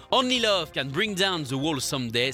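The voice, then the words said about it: Strong German accent in English. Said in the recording (French): “j'ai un terrible accent allemand”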